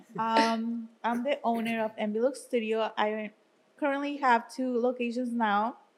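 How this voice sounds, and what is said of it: Mexican accent. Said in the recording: “I'm originally from Mexico, so you guys can hear my accent.”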